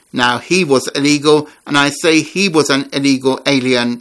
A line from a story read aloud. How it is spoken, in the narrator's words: Trump said